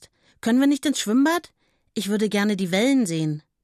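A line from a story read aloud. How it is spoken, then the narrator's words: Called out. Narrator (German): ruft Suse jetzt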